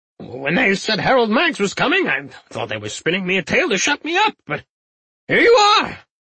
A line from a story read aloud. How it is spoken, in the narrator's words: Arvel exclaimed gleefully